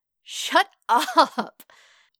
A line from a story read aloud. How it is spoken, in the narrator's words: Peter laughs